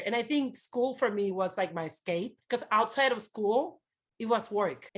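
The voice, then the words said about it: Non-native accented English. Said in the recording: “I have an accent. I was barely speaking the language”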